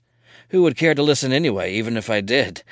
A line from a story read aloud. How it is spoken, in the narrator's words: he laughs